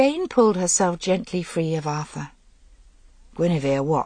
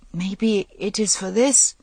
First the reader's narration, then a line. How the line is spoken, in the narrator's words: Guinevere faltered